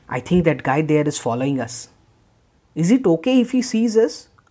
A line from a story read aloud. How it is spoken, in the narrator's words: asked Joel in a worried tone